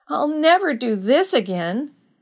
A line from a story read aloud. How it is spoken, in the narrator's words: wailed Alberta